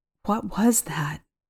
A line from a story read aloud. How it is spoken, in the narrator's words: Monica asked, her voice quivering